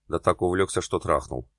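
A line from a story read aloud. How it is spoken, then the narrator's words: Snorting. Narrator (Russian): хмыкнул Ян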